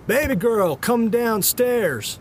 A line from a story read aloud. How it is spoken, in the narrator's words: shouted up from the landing